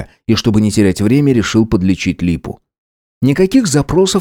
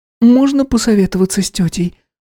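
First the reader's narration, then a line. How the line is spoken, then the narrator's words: Timid question. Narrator (Russian): робко спросила Анастасия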